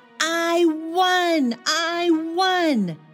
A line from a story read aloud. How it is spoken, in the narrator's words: I shouted